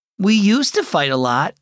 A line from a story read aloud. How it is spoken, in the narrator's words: said Zoe